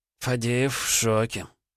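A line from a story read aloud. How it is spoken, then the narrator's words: Sighing. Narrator (Russian): вздохнул Маратти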